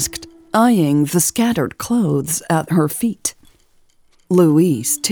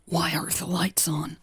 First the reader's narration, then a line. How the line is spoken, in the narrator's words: whispered